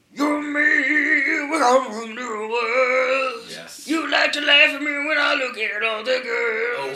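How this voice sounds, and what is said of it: Imitates another person's singing voice. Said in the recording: “You want to hear my Darius impression? ... So that's fucking really good.”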